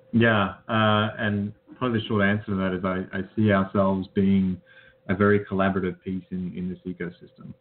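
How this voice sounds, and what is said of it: Australian accent. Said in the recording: “you're from Australia. I don't think anyone was confused by your Tennessee accent”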